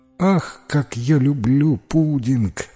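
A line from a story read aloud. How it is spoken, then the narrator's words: Sigh. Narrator (Russian): вздохнула миссис Майка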